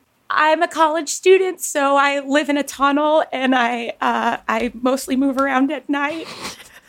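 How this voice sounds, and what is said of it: Impression of Emma Choi. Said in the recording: “do you want to try impersonate me? ... Why is it so hard to do an Emma Choi?”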